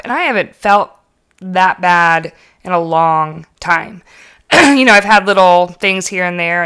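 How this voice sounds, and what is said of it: Slightly hoarse, strained voice. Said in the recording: “you can kind of probably still hear it. My voice is still kind of, and I've got this just fiery sore throat”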